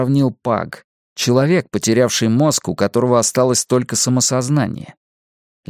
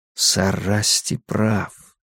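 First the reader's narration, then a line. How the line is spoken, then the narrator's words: Whispered. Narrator (Russian): прошептал я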